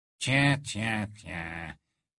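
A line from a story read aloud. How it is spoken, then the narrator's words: Sneering. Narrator (French): ricana Rogue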